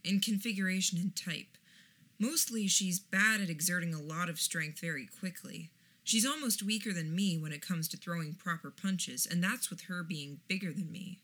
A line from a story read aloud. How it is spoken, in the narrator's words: I murmured back